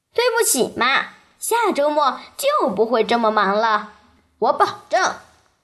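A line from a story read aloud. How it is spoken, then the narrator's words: Smiling. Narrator (Chinese): 娜塔莉对妈妈笑了笑，她说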